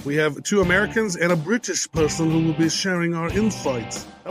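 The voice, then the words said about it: Poor put-on British accent. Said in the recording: “That was a horrible British accent, wasn't it? ... That was horrible. That was bad. But it was on point.”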